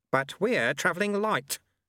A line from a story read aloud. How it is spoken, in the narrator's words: said Lutze firmly